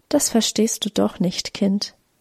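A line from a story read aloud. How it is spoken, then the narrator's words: Soft. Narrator (German): sagte leise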